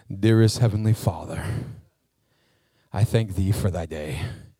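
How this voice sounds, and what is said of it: Formal churchy prayer voice. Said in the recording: “put on my church voice”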